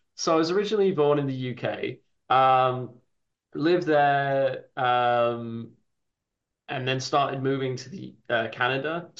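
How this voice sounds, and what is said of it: Wild mixed British-Canadian accent. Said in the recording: “the Canadian Brit bit ... You do have a wild accent”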